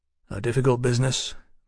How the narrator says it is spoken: Mallory muttered

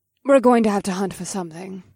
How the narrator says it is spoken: Vanessa sighed

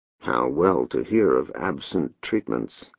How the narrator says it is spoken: muttered

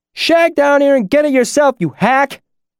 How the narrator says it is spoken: the voice shouted up from the basement

